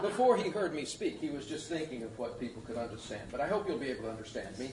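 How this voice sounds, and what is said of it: American Southern Tennessee accent. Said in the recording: “my accent, I come from Tennessee originally ... I will become more British”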